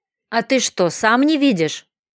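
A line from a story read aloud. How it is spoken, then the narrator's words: Angry reply. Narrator (Russian): зло ответил оборотень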